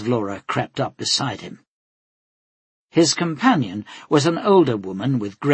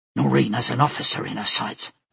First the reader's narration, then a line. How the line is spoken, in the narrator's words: Dad said in an excited whisper